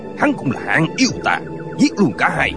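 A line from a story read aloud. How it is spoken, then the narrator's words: Shouting. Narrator (Vietnamese): Tân Quốc Lương quát lên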